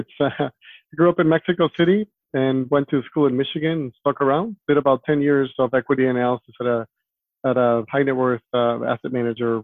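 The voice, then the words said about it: Slight foreign accent in English. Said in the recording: “You may hear a bit of an accent”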